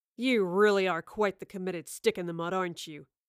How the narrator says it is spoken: Waylon spat at the professor

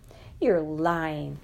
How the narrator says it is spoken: cried Captain Hardcastle, and there was triumph in his voice

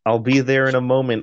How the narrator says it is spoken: I shouted back

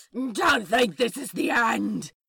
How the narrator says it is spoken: he shrieks

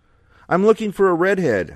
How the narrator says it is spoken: I shouted

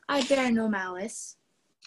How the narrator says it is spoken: said he to the demon in a gentle voice

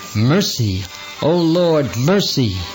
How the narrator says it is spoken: exclaiming

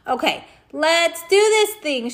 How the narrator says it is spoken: shouted Miss Cuddy

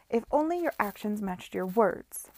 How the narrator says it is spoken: raised her voice

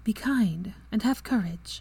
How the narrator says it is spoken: she said softly

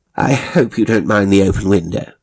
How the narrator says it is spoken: said Mrs

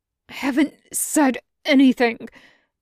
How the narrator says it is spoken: Morrison wheezes from underneath him

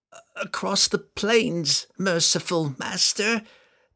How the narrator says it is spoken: Telshazz cried, with all of his strength

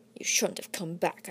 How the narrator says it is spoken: muttered

